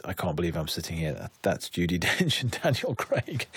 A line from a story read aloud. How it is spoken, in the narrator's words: started laughing and said